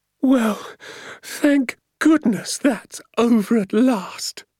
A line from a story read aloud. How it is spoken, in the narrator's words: a woman's voice behind me cried out